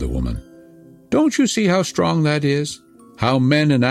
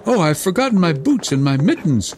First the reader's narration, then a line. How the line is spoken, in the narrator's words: cried Gerda, as soon as she felt the cutting cold